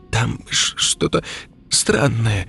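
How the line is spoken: Stammering. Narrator (Russian): заикаясь, проговорила Лика

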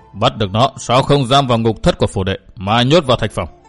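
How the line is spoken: Stern question with snort. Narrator (Vietnamese): Vi thừa tướng hừ một tiếng nghiêm giọng hỏi

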